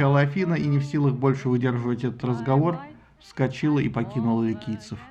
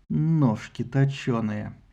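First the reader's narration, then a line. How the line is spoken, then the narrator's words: Barely audible, thoughtful. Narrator (Russian): Немного поразмыслив, Пандар еле слышно проговорил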